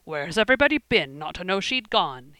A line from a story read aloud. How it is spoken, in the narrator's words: he exclaimed